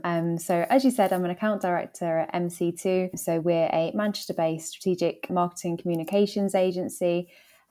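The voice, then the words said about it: London English accent. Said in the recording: “as you can probably tell from my accent, I'm not from Manchester. So I grew up in London.”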